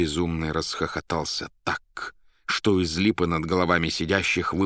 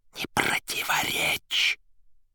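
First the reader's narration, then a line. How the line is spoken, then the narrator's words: Soundless mouthed whisper. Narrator (Russian): одними губами шепнул Берлиоз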